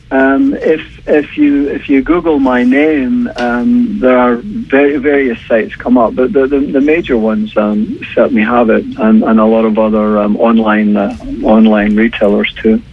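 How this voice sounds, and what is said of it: Mild Scottish accent. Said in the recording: “a bit of an accent, and it's not Irish; it is Scottish ... a little bit muted, but yes, it is. I grew up in Edinburgh.”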